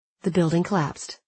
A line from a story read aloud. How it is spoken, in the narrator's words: my mother said calmly